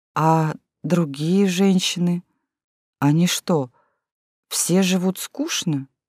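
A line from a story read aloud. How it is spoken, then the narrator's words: Timid boy's question. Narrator (Russian): мальчишка как-то робко спросил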